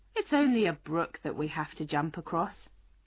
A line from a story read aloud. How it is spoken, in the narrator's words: The horse said calmly